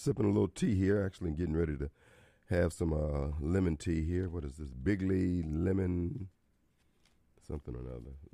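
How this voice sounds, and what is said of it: Hoarse voice. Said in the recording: “I am just a little hoarse.”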